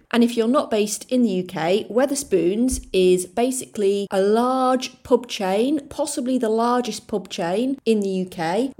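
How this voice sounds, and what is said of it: Soft South Yorkshire English accent. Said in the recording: “My accent is kind of a soft South Yorkshire accent, a bit Lincolnshire. It's not particularly strong”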